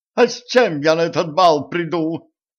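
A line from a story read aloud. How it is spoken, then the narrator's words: Hysterical cry. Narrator (Russian): истерично вскрикнула баронесса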